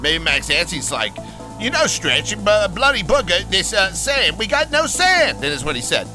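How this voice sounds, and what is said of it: Funny put-on accent. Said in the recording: “some guy with a funny accent.”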